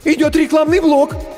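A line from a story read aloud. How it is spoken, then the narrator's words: Frightened squeak. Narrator (Russian): испуганно пискнул первый ассистент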